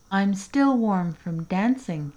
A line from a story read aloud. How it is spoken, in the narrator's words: said